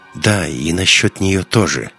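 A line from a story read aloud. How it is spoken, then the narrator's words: Uncertain. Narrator (Russian): неуверенно сказал Ник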